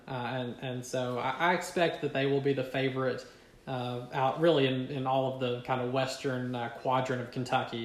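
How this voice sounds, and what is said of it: Eastern Kentucky accent. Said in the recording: “you can tell we're from maybe kind of eastern Kentucky because of our accent ... Well, that goes without saying”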